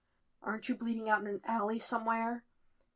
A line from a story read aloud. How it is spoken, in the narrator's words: He rasps